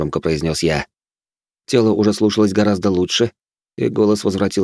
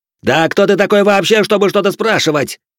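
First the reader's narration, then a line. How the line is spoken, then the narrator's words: Roaring. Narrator (Russian): взревел сын старосты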